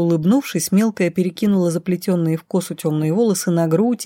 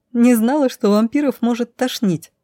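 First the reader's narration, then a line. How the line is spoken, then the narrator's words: Giggling. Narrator (Russian): хихикнула Лайза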